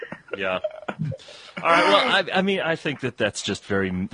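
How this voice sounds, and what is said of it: Usual voice. Nothing is said of it.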